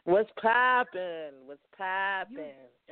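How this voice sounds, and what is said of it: Imitating Carly B's voice. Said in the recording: “In my Carly B voice”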